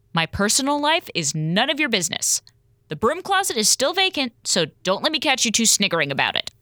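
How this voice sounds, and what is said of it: Stern, serious voice. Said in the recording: “Look at me and hear my serious voice.”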